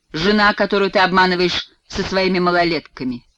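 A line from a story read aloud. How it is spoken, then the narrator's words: Spiteful, through gritted teeth. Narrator (Russian): злобно цедит Бушуа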